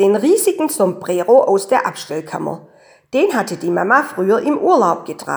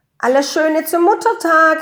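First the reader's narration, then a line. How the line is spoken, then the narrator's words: Called out. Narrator (German): rief der Franz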